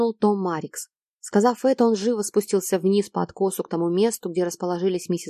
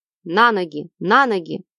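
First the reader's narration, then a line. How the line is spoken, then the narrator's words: Commander shouting. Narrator (Russian): крикнул начальник охраны стражи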